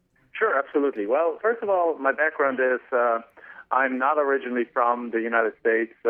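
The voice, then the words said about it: German accent. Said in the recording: “I'm actually from Germany originally, so you can probably tell from my accent I sound like Arnold Schwarzenegger”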